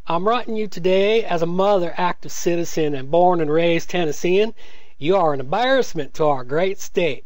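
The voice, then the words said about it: Put-on Southern US accent. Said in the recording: “I got to do this because you can't do a Southern accent, boy.”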